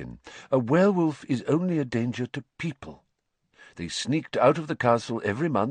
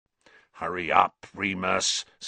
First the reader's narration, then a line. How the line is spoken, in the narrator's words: snarled Black, who was still watching Scabbers with a horrible sort of hunger in his face